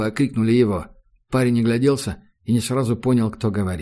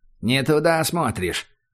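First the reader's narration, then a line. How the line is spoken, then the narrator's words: Cold prompt from below. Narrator (Russian): холодно подсказали снизу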